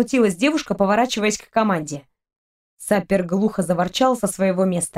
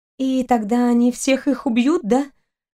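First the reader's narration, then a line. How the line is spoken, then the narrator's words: Trembling voice asking. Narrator (Russian): Дрогнувшим голосом продолжила спрашивать Кристина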